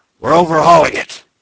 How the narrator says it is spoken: the Canadian would shout

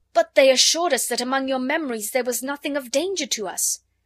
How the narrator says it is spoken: cried out, shaking

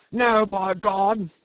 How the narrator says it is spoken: shouted Brown suddenly

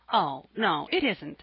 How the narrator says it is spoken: said Jasper, smiling brightly

